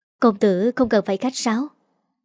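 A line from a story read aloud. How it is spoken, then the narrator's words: Smiling. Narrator (Vietnamese): Dành Dành mỉm cười nói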